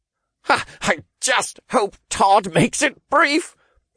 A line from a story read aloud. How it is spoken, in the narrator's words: Oliver panted